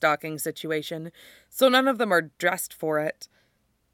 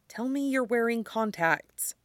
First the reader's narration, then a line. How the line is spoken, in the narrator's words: he murmurs to Jake